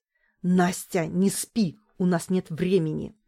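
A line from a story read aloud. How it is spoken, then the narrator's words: Irritated growl. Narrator (Russian): Глеб раздраженно зарычал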